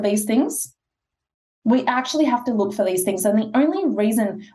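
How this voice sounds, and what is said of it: Usual voice. Nothing is said of it.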